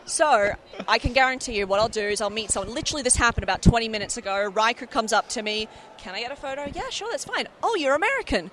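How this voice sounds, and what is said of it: Australian accent that sounds American. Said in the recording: “I'm Australian, but my accent wasn't even a typical Australian one. ... they were like, oh, you're American, right? ... Oh, you're American.”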